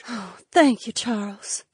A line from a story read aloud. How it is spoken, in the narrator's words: the Nyx woman breathed